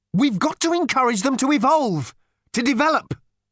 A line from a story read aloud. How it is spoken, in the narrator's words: Arthur burst out angrily